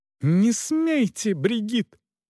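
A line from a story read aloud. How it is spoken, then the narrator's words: Lady's exclamation. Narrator (Russian): воскликнула госпожа Эшбахта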